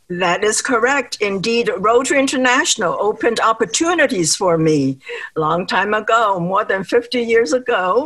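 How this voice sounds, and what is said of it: Slight foreign accent. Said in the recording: “when you speak, there is a little bit of an accent I'm sure people can detect.”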